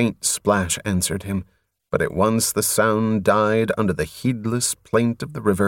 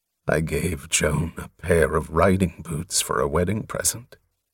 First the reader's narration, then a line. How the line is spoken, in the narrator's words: Softly at first, Covenant said to the river